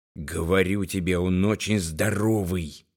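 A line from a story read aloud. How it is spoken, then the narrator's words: Whisper. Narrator (Russian): прошептал Клод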